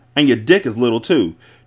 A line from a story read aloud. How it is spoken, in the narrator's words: she spat